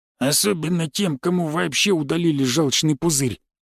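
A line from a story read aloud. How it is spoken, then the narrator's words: Grumbling old man. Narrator (Russian): пробурчал какой-то дедушка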